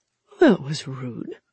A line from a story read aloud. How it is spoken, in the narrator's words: he said dreamily as blood trickled down his left temple